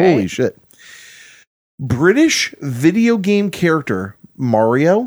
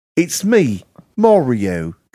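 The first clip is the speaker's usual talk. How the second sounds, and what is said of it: Mario impression in British accent. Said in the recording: “It's hard to do a Mario, but with a British accent.”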